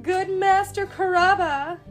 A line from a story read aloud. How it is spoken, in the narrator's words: he cried